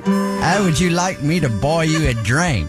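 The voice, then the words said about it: Bad mashed-up English-Australian accent. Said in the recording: “It's sort of a mashup of English and Australian and a really bad American trying to do the accents.”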